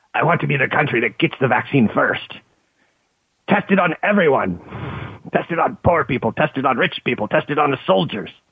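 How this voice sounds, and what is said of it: Imitates another person's voice. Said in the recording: “That's my impression of Putin.”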